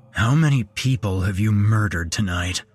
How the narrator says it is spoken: growled Travis

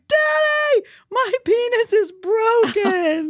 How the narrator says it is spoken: screamed

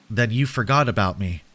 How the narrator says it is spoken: I said

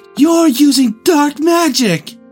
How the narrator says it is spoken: gasped Hermione in a narrow-minded voice

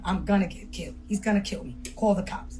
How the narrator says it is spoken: Tony whispered

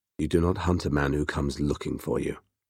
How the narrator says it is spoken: Temujin reminded him softly

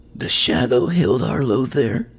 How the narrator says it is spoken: she rasps

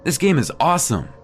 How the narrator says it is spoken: Ben shouted

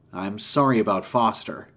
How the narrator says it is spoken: said

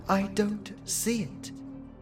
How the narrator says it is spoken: Lily whispered

